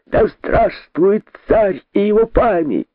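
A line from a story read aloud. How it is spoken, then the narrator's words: Group shouting. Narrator (Russian): закричали они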